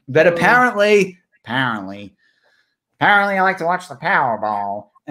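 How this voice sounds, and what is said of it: Put-on American accent. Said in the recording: “there's a bit of an American accent for you”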